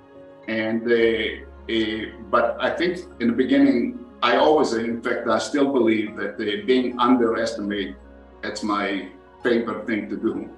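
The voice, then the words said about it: Foreign accent. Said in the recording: “being a foreigner on the floor ... people didn't understand exactly what I'm saying. And until they got used to my accent”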